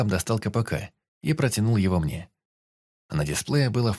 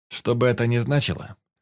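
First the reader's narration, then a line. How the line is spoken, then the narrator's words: Skeptical snort. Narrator (Russian): Остап хмыкнул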